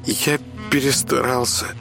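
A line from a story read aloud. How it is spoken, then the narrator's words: Sad sigh. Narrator (Russian): грустно вздохнул Кирюша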